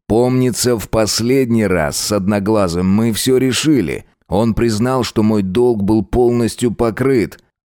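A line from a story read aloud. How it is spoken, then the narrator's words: Loud reply. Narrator (Russian): ответил громко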